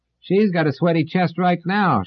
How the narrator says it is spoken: shouted a woman

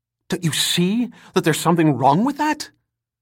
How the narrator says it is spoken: the note of near pleading in his voice

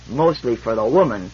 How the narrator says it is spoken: grumbled Fran

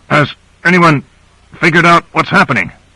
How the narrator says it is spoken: Grant managed to grunt out

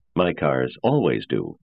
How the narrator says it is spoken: I replied stiffly

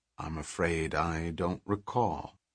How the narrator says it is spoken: The Earthman said quietly

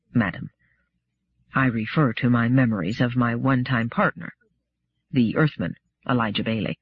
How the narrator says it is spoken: Daniil said, his voice still lower

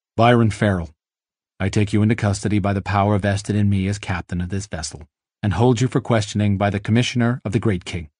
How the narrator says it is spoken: The captain had said in a flat voice

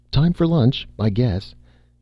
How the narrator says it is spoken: Red said cheerfully

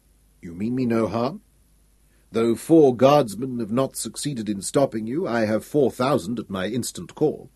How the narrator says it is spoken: He said calmly

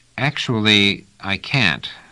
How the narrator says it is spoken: said Trevise slowly

